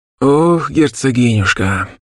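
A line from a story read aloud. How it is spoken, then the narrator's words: Old man's heavy sigh. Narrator (Russian): Тяжко вздохнул дед Валадар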